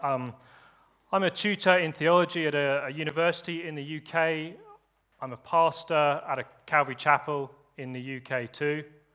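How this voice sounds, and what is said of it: Strong English accent. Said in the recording (German): “speaking in a very good English accent ... harten englischen Akzent”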